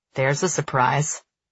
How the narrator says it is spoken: he says dryly

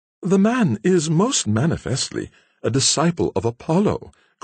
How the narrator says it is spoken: cried the amused Alice

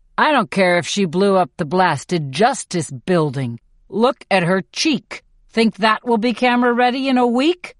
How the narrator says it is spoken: Haymitch snarls

